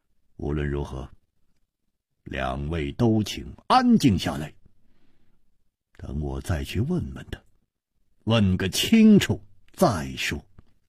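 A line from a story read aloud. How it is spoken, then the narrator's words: After silence, deep grave voice. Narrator (Chinese): 楚留香默然半晌，沉声说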